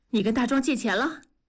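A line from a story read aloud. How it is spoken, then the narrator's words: Panting question. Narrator (Chinese): 文丽喘着粗气问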